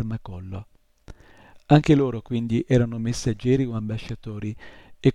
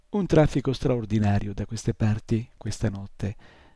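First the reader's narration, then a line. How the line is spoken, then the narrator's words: Crackling voice. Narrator (Italian): disse con la sua voce crocchiante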